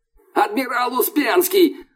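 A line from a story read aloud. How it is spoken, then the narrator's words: Yelling from below. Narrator (Russian): орали снизу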